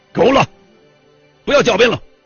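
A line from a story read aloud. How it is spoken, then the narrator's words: Furious shout into microphone. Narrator (Chinese): 外交部部长陈毅抓起话筒，怒不可遏的喊道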